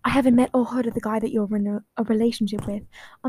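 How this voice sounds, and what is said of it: Inconsistent put-on British accent. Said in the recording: “the British accent is really coming in and out here.”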